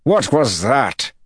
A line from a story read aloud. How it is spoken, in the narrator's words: Taim bellowed